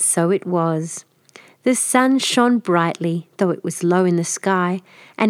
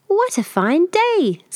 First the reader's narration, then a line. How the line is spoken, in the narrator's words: squeaked Little Bear